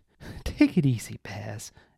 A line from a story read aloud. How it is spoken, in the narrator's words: Emma laughed